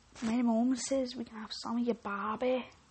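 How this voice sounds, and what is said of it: Poor put-on Irish accent. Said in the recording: “I can't do an Australian accent, but I can do Irish. ... I can't do an accent.”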